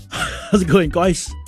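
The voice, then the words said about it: Put-on New Zealand accent. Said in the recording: “My New Zealand accent just slipped out there.”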